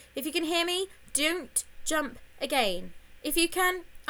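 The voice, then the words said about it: Very urgent voice. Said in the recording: “saying in a very urgent voice”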